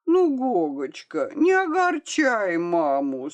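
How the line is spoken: Moaning woman. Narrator (Russian): стонала дама с розой

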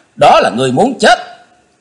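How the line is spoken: Loud ringing shout. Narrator (Vietnamese): Chí Tôn quát gian cả tràng

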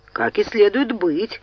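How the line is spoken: Snorting. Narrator (Russian): хмыкнул Чарльз

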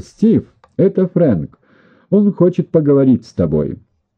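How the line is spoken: Shouted. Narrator (Russian): крикнула

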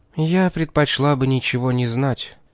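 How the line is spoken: Weary. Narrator (Russian): устало произнесла Кэролайн

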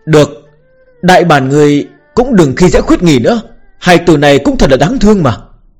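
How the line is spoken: Sighing. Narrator (Vietnamese): Bạch Tiểu Thuần lại thở dài

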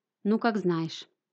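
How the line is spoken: Dejected, sinking voice. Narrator (Russian): упавшим голосом произнесла она

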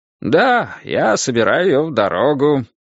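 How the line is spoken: Cheerful voice. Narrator (Russian): сказал он веселым голосом

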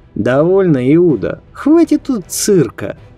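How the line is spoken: Soldier laughing. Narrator (Russian): Солдат смеялся, улыбаясь

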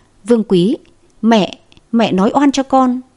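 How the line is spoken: Trembling voice. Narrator (Vietnamese): Hoàng Như run rẩy nói

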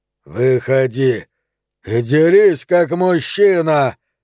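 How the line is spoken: Spluttering roar. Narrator (Russian): взревел куколка, разбрызгивая слюну и кровь

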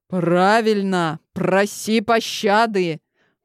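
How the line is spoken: Menacing. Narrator (Russian): Грозно проговорил

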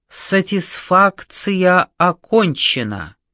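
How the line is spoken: Loud commanding middle-aged man. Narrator (Russian): Громко и властно произнес какой-то человек, лет 40 на вид

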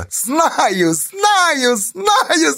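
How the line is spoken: Laughing. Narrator (Russian): засмеялась Байте

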